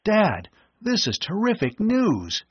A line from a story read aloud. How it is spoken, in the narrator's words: he exclaimed